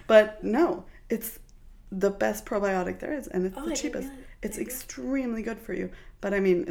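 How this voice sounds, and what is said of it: Usual voice. Nothing is said of it.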